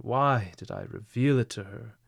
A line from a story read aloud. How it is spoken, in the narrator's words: he exclaimed in despair